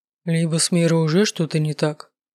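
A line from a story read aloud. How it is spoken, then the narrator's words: Gloomy remark. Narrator (Russian): мрачно заметил Рыч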